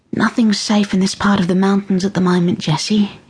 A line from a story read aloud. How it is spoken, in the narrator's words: she said gently